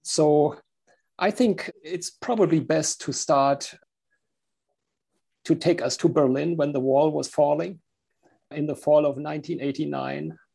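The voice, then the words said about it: German accent. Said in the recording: “I'm from Germany, as you can hear with my accent.”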